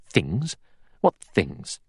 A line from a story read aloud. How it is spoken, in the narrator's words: Armstrong said sharply